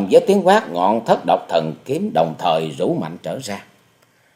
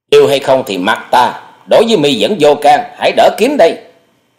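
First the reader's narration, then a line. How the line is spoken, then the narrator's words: Glaring shout back. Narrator (Vietnamese): Hoa Sĩ Kiệt trợn mắt quát lại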